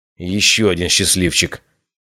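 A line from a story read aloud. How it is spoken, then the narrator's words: Grumble. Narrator (Russian): проворчал Брон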